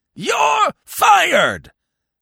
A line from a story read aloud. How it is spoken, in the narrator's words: bellowed old Blumenfield